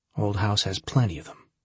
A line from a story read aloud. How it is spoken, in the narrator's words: she said coldly